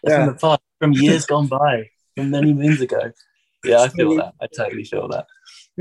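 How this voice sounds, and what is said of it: Nondescript English Midlands accent. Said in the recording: “my accent over here is fairly nondescript. Like it's not what you'd call like posh. ... So it's not like Cockney, but it's not Northern. It's like its own little Midlands accent. ... you sound remotely like Daniel Radcliffe”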